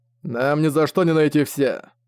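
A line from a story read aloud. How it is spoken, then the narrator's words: Gloomy remark. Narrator (Russian): мрачно заметил Аланик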